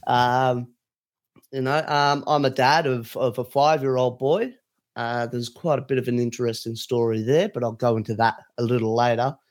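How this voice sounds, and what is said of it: Australian accent. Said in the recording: “As you could probably tell by my accent, I live in Sydney, Australia.”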